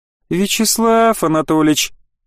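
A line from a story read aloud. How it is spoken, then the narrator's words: Sing-song, affectionate. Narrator (Russian): Ирма мало того, что произнесла имя профа нараспев и ласково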